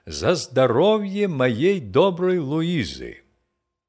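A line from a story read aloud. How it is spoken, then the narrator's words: Loud toast. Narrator (Russian): хозяин громко произнес по-русски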